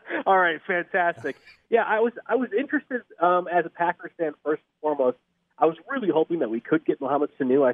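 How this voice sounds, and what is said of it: Rough, congested sick-sounding voice. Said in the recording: “continue to talk my cold ... I'll be going through the world's worst voice changer”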